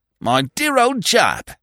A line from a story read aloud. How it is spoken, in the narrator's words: he cried